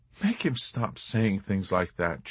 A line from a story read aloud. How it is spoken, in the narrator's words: she begged